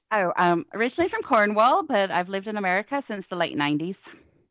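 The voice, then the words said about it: Cornish English accent. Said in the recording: “your wonderful accent ... what is that accent”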